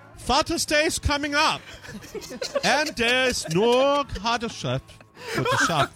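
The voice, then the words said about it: Put-on Dutch accent. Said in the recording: “Maybe I could do this with a Netherlands accent.”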